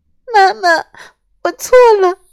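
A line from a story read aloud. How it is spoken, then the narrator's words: Sobbing. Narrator (Chinese): 小小鸡与妈妈相拥大哭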